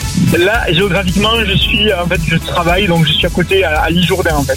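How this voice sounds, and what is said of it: Regional accent from the Gers. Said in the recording (French): “Est d'où cet accent ... Je viens du Gers”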